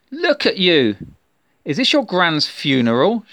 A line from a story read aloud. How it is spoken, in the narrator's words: shouted Sam